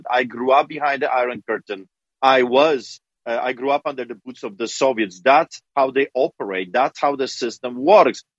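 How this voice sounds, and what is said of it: Noticeable foreign accent. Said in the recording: “a guy with a funny accent”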